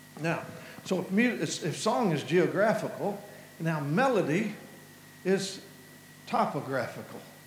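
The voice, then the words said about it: Melodic Kentucky Southern accent. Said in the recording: “hills and hollers like where I'm from... you'll hear the melody rise in my voice, the notes, the tone... accent that expresses passion... my accent”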